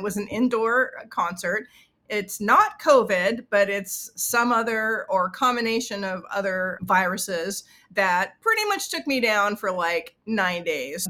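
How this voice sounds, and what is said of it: Sick, congested voice. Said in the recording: “you can probably tell by my voice that I am sick”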